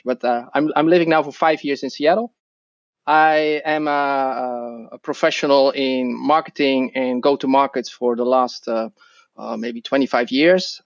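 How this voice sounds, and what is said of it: Dutch accent in English. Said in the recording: “I'm originally Dutch, so that's my accent.”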